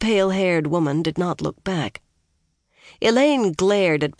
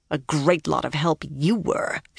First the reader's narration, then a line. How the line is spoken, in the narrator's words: she growled